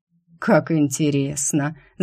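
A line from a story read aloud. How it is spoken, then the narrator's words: Thoughtful. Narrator (Russian): задумчиво проговорил он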